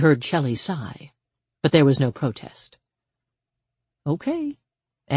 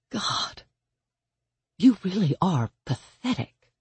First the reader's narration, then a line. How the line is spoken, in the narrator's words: she murmured with a smile